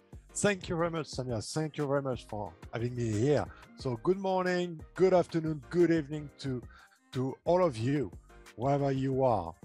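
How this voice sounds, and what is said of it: French accent. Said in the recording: “I have an accent and I'm French... I love your accent and I understand it perfectly”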